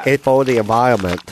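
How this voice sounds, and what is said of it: Mock Vietnamese accent. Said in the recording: “I made him sound deaf. ... You made him sound deaf and Vietnamese.”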